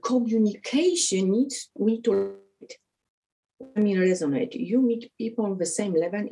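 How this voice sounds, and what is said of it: Non-native English accent. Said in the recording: “You hear my accent now.”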